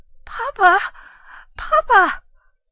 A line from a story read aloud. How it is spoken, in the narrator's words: a feeling of supernatural fear seized me, and I called out loudly in a trembling voice